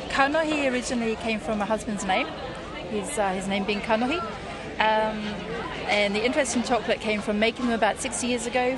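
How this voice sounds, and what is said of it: Jersey Islands accent. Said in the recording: “what's your accent? ... Jersey”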